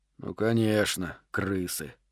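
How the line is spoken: Grumbling. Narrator (Russian): проворчал он

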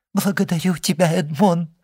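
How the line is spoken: Exclaiming. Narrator (Russian): воскликнула она

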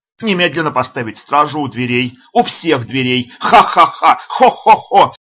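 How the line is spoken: Loud laughter. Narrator (Russian): Снова расхохотался Бекфорд

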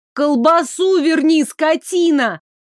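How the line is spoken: Yelling after someone. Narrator (Russian): заорала ему вслед победительница

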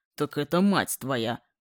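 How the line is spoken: Irritated. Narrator (Russian): Раздраженно отозвался отец

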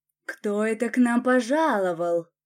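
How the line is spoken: Drawn-out drawl. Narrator (Russian): протянул Арман

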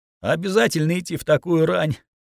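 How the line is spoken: Sleepy question. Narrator (Russian): сонно спросила Алина

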